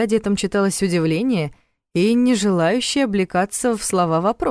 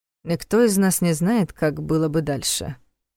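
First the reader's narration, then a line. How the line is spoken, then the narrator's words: Gloomy reply. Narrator (Russian): мрачно ответил Войтых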